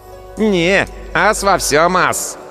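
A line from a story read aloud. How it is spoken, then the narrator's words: Smug mumble, young boy. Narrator (Russian): Самодовольно улыбаясь самодельной поговорке, пробурчал худенький парнишка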